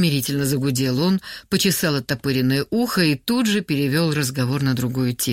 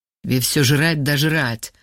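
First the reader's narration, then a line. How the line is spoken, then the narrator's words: Angry mutter. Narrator (Russian): зло буркнул Вова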